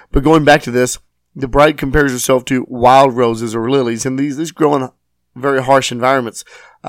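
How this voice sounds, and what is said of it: Rough, strained hoarse voice. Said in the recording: “my sinuses and throat is extremely torn up. So I know my voice is not up to normal standards... it is a little rough”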